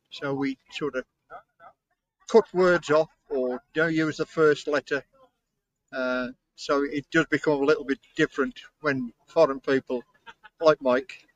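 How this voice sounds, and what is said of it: Black Country English accent. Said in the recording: “in England, in the Midlands ... my accent is what they call black country”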